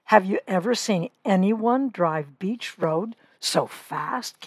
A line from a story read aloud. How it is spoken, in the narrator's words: Kate asked